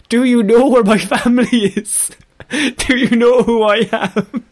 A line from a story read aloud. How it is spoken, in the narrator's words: The person in ninja garb was repeatedly shouting